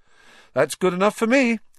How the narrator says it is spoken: said Ron happily

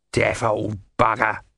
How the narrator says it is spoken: muttered the great god Om

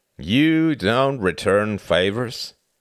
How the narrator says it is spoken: slurred William, his eyes widened in genuine curiosity

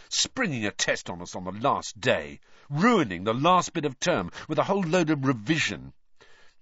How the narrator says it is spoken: Ron said bitterly that night in the Gryffindor common room

